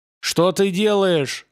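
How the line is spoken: Shouting. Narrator (Russian): закричал он

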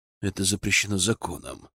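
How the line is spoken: Regretful grumble. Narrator (Russian): с сожалением буркнул Зотов

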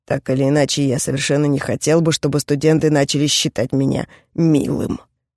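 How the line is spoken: Grumbling. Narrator (Russian): проворчал Кроу

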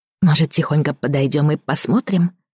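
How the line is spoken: Whispered suggestion. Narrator (Russian): также шепотом предложила Элина

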